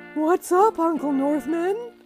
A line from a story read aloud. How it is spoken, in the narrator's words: said Yogi sleepily